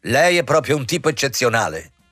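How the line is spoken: Imperious, cutting after pause. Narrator (Italian): Dopo la lunga pausa, disse con voce imperiosa e pungente

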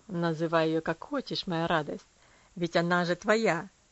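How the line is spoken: Laughing. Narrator (Russian): рассмеялся он над вопросом

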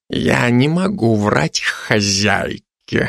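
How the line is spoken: Reluctant, through teeth. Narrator (Russian): нехотя произнес сквозь зубы

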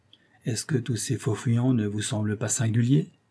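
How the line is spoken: Plain. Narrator (French): demanda-t-il

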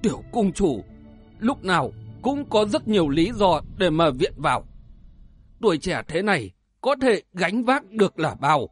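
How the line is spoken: Moved, tearful mutter. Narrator (Vietnamese): Huyết Xì Lôi Mãnh cảm động đến hai giọt lệ lăn dài xuống, lẩm bẩm nói

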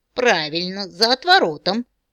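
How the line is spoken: Old woman's hoarse laugh. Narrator (Russian): хрипло рассмеялась бабка

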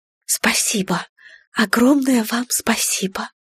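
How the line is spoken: Whispered reply. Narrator (Russian): Эвелин прошептала в ответ

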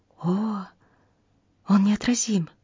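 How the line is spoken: Young waitress whispering. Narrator (Russian): одна из девушек, прислуживавших за столом, шепнула своему приятелю-официанту

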